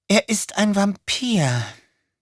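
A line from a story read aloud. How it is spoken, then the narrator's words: Sigh. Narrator (German): seufzte sie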